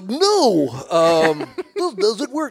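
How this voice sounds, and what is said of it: Poor Goofy cartoon voice impression. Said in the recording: “worst goofy impression”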